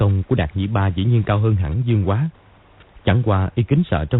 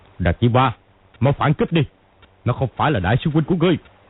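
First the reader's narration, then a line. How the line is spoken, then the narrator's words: Impatient shout. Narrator (Vietnamese): Kim Luân Pháp Dương không nhịn được nữa quát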